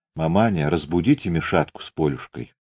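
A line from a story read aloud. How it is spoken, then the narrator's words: Quiet request. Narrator (Russian): Наталья тихо попросила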